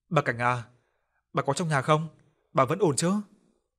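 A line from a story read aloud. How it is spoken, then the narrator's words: Soft. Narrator (Vietnamese): giọng ông khẽ nói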